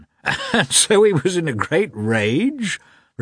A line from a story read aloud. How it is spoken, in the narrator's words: repeated the commander, laughing